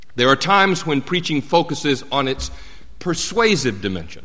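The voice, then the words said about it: Southern US accent. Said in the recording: “as you can hear in my accent, in the Southeast”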